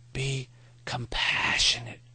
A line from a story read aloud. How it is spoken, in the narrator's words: Maury whispered